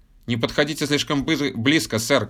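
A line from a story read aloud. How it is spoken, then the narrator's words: Shout. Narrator (Russian): крикнул командор Рент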